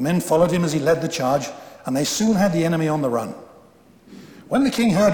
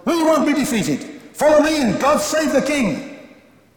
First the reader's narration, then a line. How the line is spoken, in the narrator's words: the young man yelled